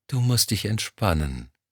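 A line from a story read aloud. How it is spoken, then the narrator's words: Soft cooing. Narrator (German): säuselte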